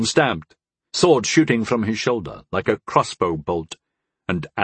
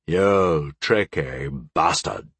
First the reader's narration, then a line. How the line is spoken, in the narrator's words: the Sunjin growled